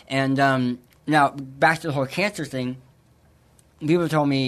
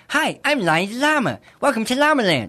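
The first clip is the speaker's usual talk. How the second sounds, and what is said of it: High-pitched cartoon llama voice. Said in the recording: “you sound like a cartoon character... I'll just put my voice octave up”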